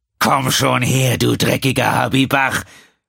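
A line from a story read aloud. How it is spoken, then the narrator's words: Roared. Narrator (German): brüllte er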